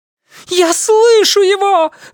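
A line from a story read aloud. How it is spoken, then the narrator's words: Woman shouting. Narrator (Russian): закричала она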